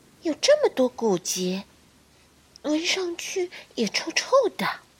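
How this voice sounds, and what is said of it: Quiet, soft voice. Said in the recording (Chinese): “小声”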